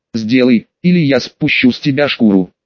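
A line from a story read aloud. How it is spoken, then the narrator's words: Growled threat. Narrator (Russian): рыкнула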